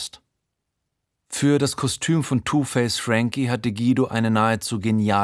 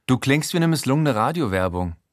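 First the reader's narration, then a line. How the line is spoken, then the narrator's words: Plain. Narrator (German): sagt Lada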